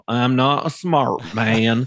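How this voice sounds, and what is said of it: Bad Forrest Gump impression. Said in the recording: “going to do a bad impersonation ... my Forrest Gump”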